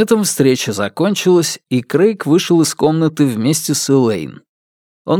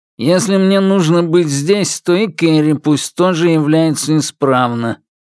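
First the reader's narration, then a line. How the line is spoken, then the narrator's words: Tedious nasal whine from behind. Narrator (Russian): прогнусавил занудно Сид с Юки у них за спинами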